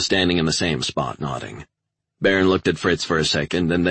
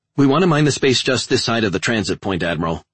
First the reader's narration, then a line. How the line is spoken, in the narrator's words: Eaton blurted out